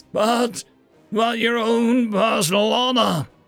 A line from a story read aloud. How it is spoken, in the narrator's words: whimpered Krugak